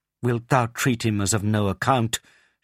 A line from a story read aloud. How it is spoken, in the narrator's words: she cried